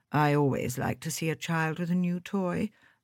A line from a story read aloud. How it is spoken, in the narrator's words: murmured the Colonel